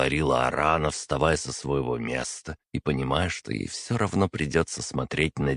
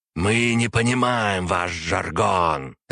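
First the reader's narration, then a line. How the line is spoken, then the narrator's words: Barking. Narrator (Russian): рявкнул на это примарх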